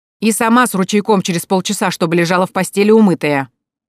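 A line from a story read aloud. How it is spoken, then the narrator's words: Shouted after departing children. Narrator (Russian): Евгения прокричала уже вслед растворившемуся в кустах детсаду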